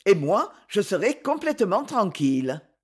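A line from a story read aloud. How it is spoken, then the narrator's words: Satisfied tone. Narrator (French): ajouta-t-il d'un ton satisfait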